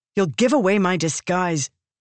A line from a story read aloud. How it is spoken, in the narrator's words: she snapped at him